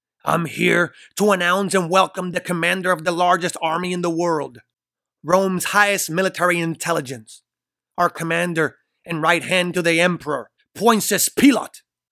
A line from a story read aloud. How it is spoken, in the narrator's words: He screams proudly